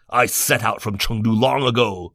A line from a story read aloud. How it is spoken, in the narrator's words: Liu Bei said angrily